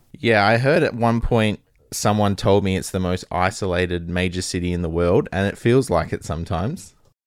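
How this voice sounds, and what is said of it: Australian accent. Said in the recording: “am I detecting a specific accent? ... it's pretty specific, absolutely ... Australia”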